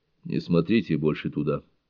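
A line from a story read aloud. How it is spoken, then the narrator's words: Quiet priest's advice. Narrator (Russian): негромко посоветовал священник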